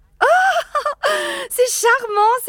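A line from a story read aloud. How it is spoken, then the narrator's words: Exclaiming. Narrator (French): s'écria Madame Cassard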